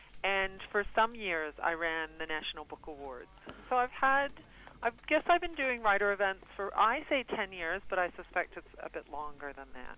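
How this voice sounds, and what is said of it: American accent, upstate New York. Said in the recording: “that doesn't sound like a New Zealand accent ... I'm a Yankee Doodle. I'm an American. I grew up in upstate New York.”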